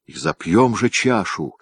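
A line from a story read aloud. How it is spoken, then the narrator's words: Exclamation. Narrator (Russian): воскликнул Иван Иванович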